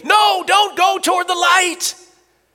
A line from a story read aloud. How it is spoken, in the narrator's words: screaming